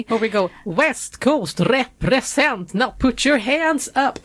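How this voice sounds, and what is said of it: Singing in a Gothenburg accent. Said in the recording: “that was me trying my best to sing with a Gothenburg accent”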